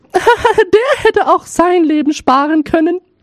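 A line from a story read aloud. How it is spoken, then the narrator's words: Laughing, eldest daughter speaking. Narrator (German): lachten, und die Älteste sprach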